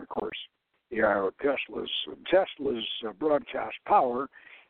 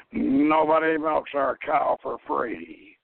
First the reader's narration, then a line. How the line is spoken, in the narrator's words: he growled